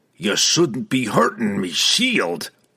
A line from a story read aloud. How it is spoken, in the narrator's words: he growled